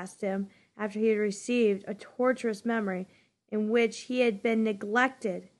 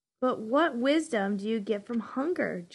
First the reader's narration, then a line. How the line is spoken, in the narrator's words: Jonas groaned